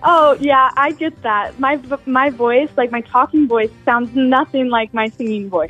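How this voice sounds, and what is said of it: Young, youthful-sounding voice. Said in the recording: “You sound young. ... You sound like you're 16 over there. ... you're so youthful”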